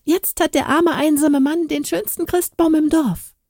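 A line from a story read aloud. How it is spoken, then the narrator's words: Cheerful call. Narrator (German): rief Bärbel fröhlich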